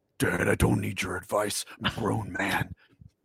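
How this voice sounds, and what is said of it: Harrison Ford impression. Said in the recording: “your best Harrison Ford ... the Harrison Ford will be like,”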